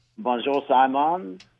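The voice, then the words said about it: Put-on French accent. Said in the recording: “That was my French accent.”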